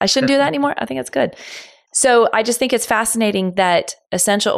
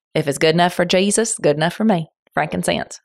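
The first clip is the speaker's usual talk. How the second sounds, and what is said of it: Put-on country accent. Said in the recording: “talk in my best country voice.”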